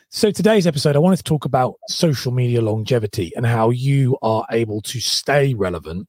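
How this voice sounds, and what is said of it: Hoarse voice. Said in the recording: “I've got a really hoarse voice”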